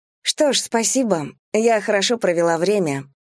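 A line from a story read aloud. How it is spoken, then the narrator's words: Sweet little voice. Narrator (Russian): произносит Кэлси своим сладким голоском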